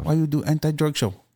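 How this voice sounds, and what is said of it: Exaggerated put-on foreign accent. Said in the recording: “my accents are horrible”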